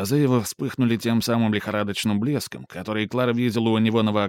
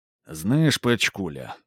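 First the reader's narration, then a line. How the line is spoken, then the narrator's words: Gloomy. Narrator (Russian): мрачно сказал он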